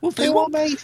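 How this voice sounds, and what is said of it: Poor put-on Scouse accent. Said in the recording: “that's the worst Scouse accent I've heard.”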